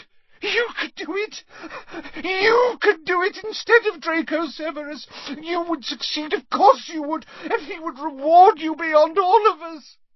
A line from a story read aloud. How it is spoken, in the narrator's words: her tears falling onto his chest, she gasped